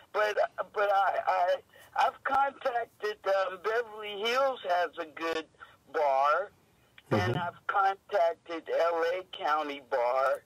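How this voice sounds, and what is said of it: Weak, failing voice. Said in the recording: “I'm still fighting my illness. My voice is gone.”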